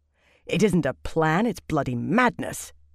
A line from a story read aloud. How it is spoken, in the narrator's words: Birgitta said sharply